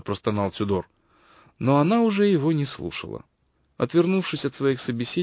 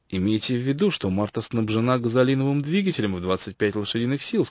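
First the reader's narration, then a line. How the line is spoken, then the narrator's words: Plain. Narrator (Russian): сказал Тюдор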